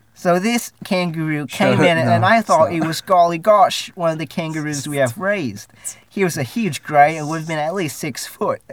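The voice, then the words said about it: Put-on Australian accent. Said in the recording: “I'm going to do this in an Australian accent.”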